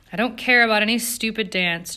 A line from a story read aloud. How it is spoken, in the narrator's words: said savagely